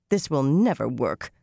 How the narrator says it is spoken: Nynaeve grumbled

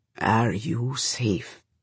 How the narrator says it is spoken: he asks then, quietly

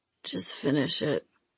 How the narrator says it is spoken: the guy mumbled

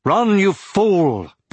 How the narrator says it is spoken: Brom cried to Aragorn

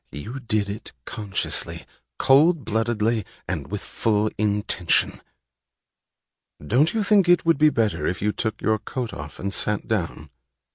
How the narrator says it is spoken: She said in the solemn, merciless tone of a prosecutor

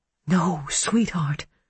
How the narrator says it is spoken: she whispered

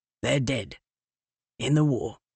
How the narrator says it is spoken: the mink said softly

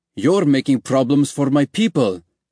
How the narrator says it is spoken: Ali snapped back

